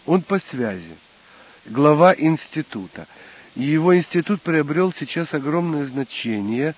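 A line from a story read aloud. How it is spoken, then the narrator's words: Sighing father. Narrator (Russian): вздохнув, сказал отец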